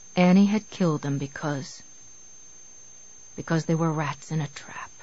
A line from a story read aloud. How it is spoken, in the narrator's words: he whispered